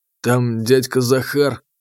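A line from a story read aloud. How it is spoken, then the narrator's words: Hesitant drawl. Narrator (Russian): нерешительно протянул Сашка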